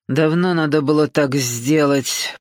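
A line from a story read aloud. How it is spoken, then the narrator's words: Grumbling prince. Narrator (Russian): проворчал принц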